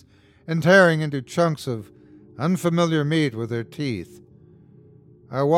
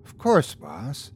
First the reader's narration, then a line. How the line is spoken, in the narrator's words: she replied quietly